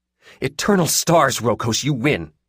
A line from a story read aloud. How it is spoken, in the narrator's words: she snapped